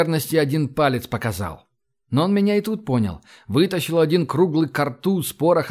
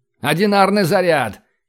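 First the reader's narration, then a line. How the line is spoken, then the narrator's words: Shout. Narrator (Russian): крикнул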